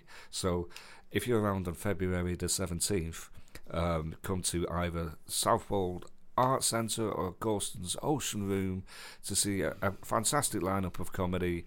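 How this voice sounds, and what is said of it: Radio presenter voice. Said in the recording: “Went a bit Partridge. ... You had a bit of a radio voice there.”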